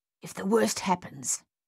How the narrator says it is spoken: Thaddeus hissed at Dave

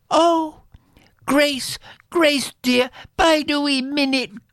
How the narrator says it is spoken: cried the faithful sister

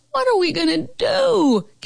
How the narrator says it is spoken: Carol Costa howled at rehearsal

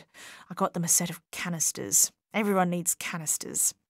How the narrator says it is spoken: whispered

